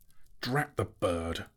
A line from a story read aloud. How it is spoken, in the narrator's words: said Bilbo crossly